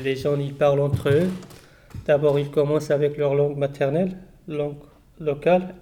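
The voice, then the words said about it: Non-native French accent. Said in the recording (French): “Même moi, je parle, mais j'ai toujours mon accent.”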